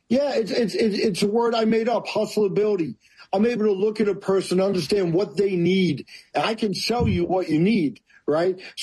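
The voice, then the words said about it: New York accent. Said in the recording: “I'm loving the New York accent.”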